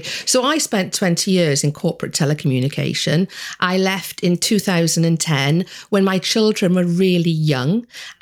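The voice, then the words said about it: Welsh accent. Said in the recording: “don't be fooled by the accent, I was born in Wales”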